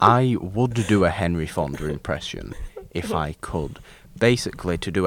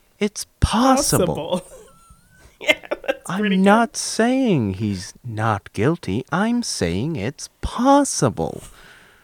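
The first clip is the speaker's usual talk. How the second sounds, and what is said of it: Imitates another person's voice. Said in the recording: “to do a Henry Fonda impression from 12 Angry Men”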